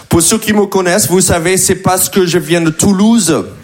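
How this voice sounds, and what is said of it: American accent speaking French. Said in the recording (French): “je parle vraiment comme ça. Ok, c'est mon vrai accent ... je parle comme ça parce que je viens des États-Unis”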